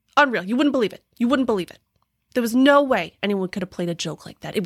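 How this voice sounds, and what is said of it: Put-on Pennsylvania-like pizzeria owner accent. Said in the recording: “that's a fabulous Pennsylvania accent ... that's a pizzeria owner accent ... it sounds very similar to like a Pennsylvania accent”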